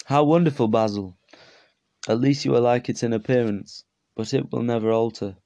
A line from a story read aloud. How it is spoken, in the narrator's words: sighed Hallward